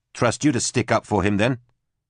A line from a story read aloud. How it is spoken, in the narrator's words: Susie said